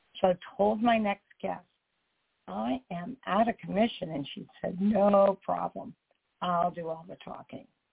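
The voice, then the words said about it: Hoarse, fading voice. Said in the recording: “As you can tell, I'm losing my voice. ... It has something to do with the pollen in the air.”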